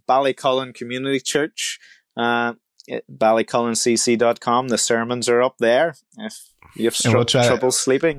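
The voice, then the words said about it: Noticeable regional accent. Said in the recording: “how can you listen even to that accent and not just want to keep listening? ... I hope people can actually understand me.”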